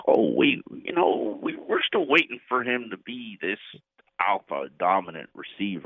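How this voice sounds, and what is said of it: Good Clyde Christensen impersonation. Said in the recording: “That's actually a good Clyde Christensen impersonation. ... And it's actually pretty good.”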